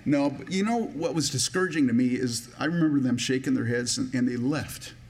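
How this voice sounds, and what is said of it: Emotional, choked-up voice. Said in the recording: “I don't know why I'm getting emotional about it ... Excuse me. Like I said, I don't know why I'm getting emotional.”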